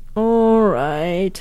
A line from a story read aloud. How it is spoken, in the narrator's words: he said sleepily